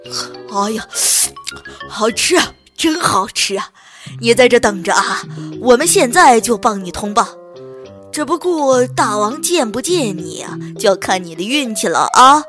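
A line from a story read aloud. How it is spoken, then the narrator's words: Loud. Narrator (Chinese): 黑熊大声说道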